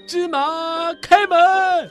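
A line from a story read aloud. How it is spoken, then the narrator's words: Loud shout. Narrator (Chinese): 卡西姆 大喊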